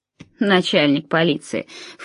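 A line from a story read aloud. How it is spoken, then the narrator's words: Snorted, gravedigger. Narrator (Russian): фыркнул могильщик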